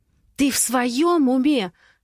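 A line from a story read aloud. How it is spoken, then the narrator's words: Angry, through gritted teeth. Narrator (Russian): зло цедит она в трубку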